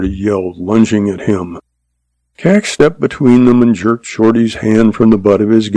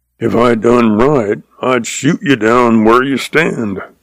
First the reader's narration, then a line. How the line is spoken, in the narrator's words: Shorty roared